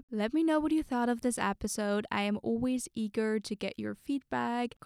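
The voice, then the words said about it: Strained voice, sore throat. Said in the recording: “my voice might sound a little strange because I have a sore throat,”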